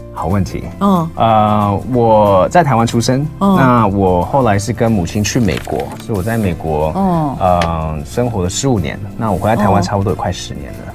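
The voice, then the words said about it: Mandarin with noticeable American-raised accent. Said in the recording (Chinese): “你的口音 ... 你你还是有那个口音，好明显哦！ ... 就是有那种在美国长大的人的口音哦，听起来很好听啦，很好听”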